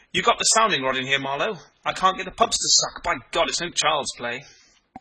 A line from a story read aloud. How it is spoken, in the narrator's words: He said excitedly